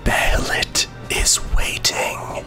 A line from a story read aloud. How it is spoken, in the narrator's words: quietly whisper